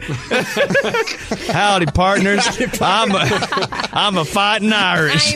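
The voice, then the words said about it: Put-on Texas accent. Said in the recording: “With a Texas ... accent. ... I don't know why he has this accent right now.”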